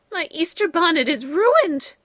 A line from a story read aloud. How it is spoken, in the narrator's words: cried Ladybug, after chocolate dripped on it